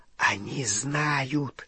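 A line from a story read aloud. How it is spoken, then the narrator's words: Whisper in ear, goblin. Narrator (Russian): зашептал крюкохват на ухо Гарри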